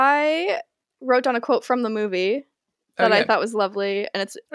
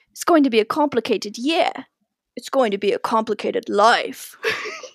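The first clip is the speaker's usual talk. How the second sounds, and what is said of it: Attempted British accent, poorly done. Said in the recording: “Are you gonna do it in a British accent? ... I will try. ... That was so bad.”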